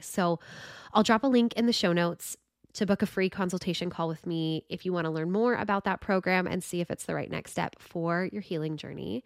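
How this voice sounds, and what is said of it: Congested, stuffy voice. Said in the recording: “my voice has not been the best to listen to today with this congestion”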